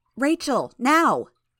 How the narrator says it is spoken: Tattletale shouted

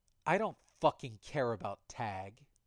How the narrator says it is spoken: Bitch growled

